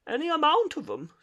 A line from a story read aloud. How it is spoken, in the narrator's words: sobbed Toad